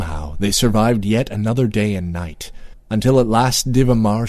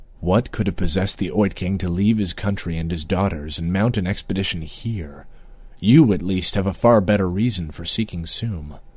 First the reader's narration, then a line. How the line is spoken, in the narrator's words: Moonglum murmured to his friend